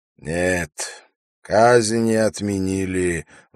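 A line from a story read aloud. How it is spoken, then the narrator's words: Sighing. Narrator (Russian): вздохнул Умар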